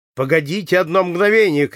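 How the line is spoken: Shouting. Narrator (Russian): крикнул Ромен

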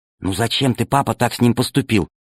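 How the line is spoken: Whisper. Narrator (Russian): прошептала Алиса

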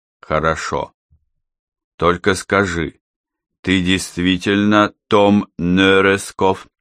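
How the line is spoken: Plain. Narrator (Russian): спросил Йон

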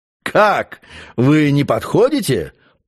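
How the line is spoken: Laughing while speaking. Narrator (Russian): продолжал он, все смеясь

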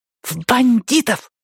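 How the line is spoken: Boy hissing. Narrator (Russian): прошипел мальчик

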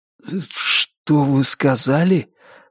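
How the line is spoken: Forced out. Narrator (Russian): выдавил он

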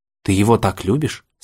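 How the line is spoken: Plain. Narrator (Russian): спросил Алекс

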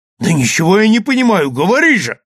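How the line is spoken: Impatient exclamation. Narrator (Russian): воскликнул нетерпеливо Ивернев

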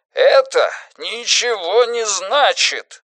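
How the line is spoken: Wailing yell. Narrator (Russian): завопил Джордж Лебей

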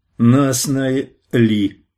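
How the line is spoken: Small bear cub giggling. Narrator (Russian): хихикнул медвежонок

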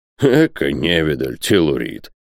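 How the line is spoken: Scoffing snort. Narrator (Russian): фыркнул Бензуф

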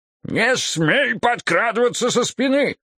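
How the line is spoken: Angry yelling. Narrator (Russian): заорал он

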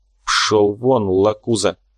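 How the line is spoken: Through gritted teeth. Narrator (Russian): процедил Корф

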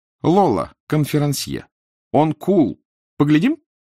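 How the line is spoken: Shrill announcement. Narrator (Russian): визгливым голосом объявил

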